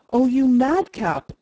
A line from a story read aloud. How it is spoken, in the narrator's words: exclaimed the elder girl